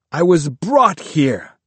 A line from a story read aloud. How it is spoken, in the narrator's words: he shouted